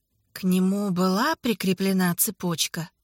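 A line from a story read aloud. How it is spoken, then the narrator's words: Plain. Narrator (Russian): спросил он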